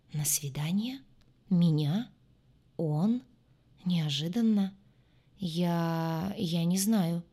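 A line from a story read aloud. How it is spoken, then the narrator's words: Hesitant, strained. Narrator (Russian): неуверенно выдавила Катя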